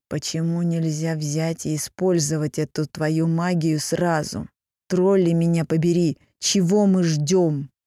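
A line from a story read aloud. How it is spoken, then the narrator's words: Nasal, hoarse. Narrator (Russian): Его голос звучал гнусаво и хрипло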